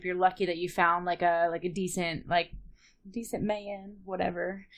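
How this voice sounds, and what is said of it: Weird put-on accent. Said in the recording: “I don't know why I got a weird accent for that”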